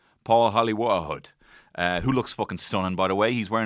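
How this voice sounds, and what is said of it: Usual voice. Nothing is said of it.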